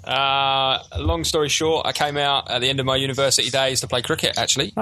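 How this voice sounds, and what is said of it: Foreign, non-New Zealand accent. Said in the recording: “your accent suggests you're not from Wellington or New Zealand.”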